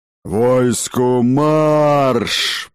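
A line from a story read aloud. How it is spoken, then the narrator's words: Roaring command. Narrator (Russian): проревел он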